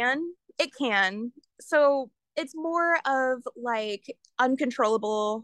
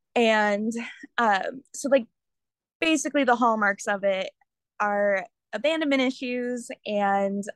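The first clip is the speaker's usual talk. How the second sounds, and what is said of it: Stuttering speech. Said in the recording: “oh my gosh, I'm stuttering.”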